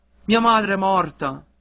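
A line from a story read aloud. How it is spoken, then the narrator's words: Desperate cry. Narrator (Italian): Il ragazzo rispose con un altro grido disperato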